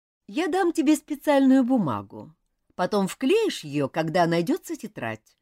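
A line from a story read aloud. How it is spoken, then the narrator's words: Plain. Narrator (Russian): сказала мисс Рейнджер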